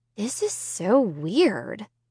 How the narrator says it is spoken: Sarah murmured

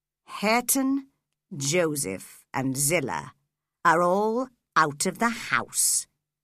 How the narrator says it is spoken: he said calmly

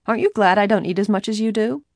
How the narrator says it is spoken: teasingly asked Bess

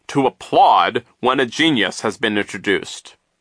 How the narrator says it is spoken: he said sternly

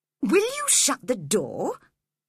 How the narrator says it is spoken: he said crossly

